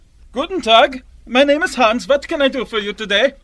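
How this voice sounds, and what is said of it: Thick German accent. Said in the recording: “a heavy-set man with a thick German accent”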